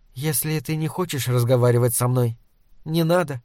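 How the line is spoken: Calm. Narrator (Russian): спокойно сказала она

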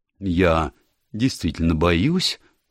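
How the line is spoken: Firm tone. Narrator (Russian): сказала миссис Оливер твердым тоном

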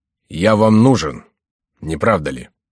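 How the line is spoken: Harsh question. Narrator (Russian): спросил Бюсси жестким тоном

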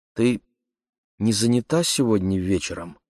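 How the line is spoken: Timid question. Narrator (Russian): робко спросила Анжелика

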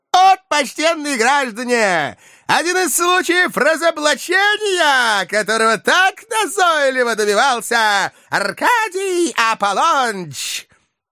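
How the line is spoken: Shout. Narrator (Russian): Подлый же Фагот, и он же Коровьев, прокричал

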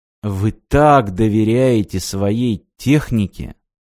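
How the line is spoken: Crushed, dejected voice. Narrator (Russian): Убитым голосом спросил Мартин

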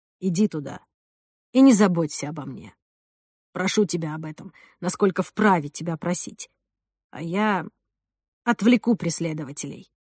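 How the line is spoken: Quiet. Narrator (Russian): Я тихо сказал Жанне

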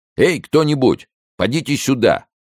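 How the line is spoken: Repeated shouting. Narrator (Russian): сколько он ни кричал

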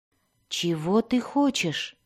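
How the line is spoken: Timid question. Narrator (Russian): робко спросил он

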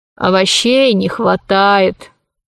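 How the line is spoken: Sighing. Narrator (Russian): вздохнул Посейдон

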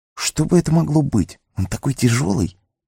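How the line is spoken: Very quiet, to himself. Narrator (Russian): Хоббит говорил уже совсем тихо, точно сам с собой

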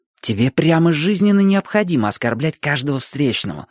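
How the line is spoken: Hissing. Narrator (Russian): прошипел Ник

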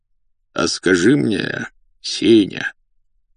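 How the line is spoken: Insinuating, ingratiating. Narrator (Russian): вкрадчиво произнес дотошный господин

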